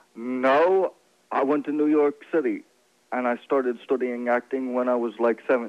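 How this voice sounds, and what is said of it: British-sounding, self-made accent. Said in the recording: “Where the hell's that accent coming from? ... it sounds like one you actually created ... People say I have a British accent ... nobody raised in Florida or New York City says studying. Nobody talks that way, except you”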